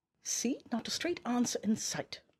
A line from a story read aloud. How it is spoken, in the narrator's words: muttered Saturne from the corner of her mouth